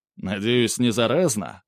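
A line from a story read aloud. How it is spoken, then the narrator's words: Wry snort. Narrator (Russian): хмыкнул Михаил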